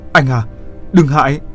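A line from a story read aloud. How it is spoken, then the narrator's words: Urgent loud shout. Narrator (Vietnamese): Như Hoa vội hét to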